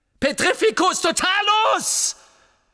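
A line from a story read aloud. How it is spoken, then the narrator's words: Roaring again. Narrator (German): brüllte Harry von Neuem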